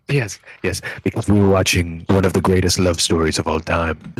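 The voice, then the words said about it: Sultry, loving voice. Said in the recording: “I'm trying to do a sultry voice ... Speak very lovingly into the microphone.”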